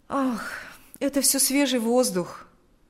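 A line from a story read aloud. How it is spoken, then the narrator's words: Sighing. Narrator (Russian): ответил Павел, вздохнув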